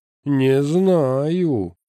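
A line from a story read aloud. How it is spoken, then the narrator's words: Drawling. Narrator (Russian): протянул Эскин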